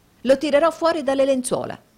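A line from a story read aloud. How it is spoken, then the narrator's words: Exclaimed. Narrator (Italian): esclamò Nicola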